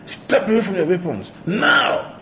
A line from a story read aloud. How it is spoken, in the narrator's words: Okay shouted again